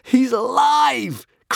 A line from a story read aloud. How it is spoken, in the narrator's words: cried Hiccup joyously, over the moon at this uncomplicated happy ending